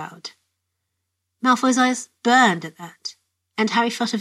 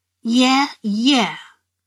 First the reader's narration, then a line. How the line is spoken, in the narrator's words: Malfoy sneered dismissively